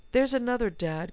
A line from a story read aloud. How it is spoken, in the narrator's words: cried Jill